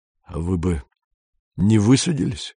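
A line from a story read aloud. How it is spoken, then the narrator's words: Hoarse. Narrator (Russian): хрипло сказал Кондратьев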